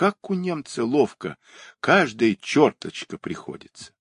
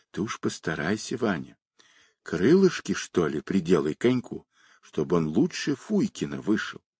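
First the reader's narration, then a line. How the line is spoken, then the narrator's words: Whispered. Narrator (Russian): Аксютка шептала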